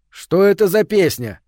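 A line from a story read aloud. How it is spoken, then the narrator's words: Barked, husband. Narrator (Russian): рявкнул в конце концов супруг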